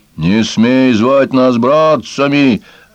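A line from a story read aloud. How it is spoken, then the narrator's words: Barking snap. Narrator (Russian): рявкнул первый пес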